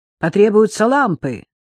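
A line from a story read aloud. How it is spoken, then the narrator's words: Sharp shout. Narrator (Russian): прикрикнул доктор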